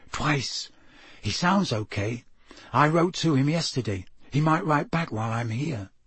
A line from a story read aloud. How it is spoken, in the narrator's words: said Harry softly